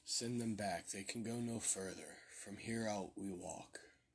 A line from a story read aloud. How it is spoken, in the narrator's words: Matthew said calmly and with regret